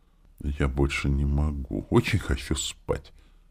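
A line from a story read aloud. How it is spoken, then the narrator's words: Exhausted sleepy whisper. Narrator (Russian): прошептала она, пошатываясь и пытаясь удержать глаза открытыми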